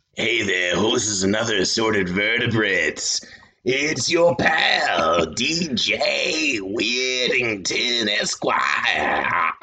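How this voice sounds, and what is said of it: Wolfman Jack impression. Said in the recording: “doing a Wolfman Jack impression”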